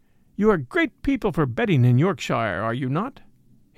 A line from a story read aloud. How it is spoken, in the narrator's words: he asked